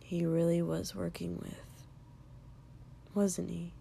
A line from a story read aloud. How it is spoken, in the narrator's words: Shoto said quietly